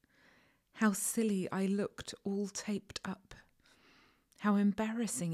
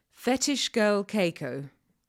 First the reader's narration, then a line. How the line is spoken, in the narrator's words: the voice said